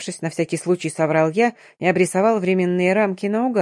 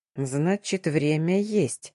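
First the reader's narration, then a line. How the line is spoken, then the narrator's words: Thoughtful grumble. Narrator (Russian): задумчиво пробурчал мой собеседник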